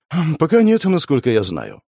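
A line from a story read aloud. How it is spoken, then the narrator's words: Sighing. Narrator (Russian): вздохнула Света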